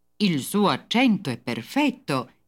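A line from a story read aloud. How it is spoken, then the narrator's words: Admiring exclamation. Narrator (Italian): esclamò con gesto d'ammirazione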